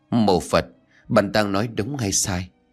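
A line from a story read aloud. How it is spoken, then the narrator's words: Shaken, trembling voice. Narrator (Vietnamese): hoàng hồn kể lại bằng giọng run rẩy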